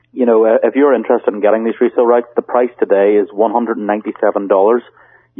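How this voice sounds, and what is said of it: Speaks with a noticeable accent. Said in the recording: “my accent sometimes confuses people.”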